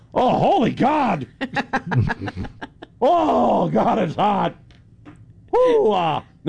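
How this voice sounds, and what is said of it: Exaggerated overheated exclamations, self-imitation. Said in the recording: “here's an imitation of myself during my first summer in South Texas ... That's a good imitation.”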